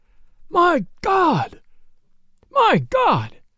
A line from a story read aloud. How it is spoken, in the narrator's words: cried the sheriff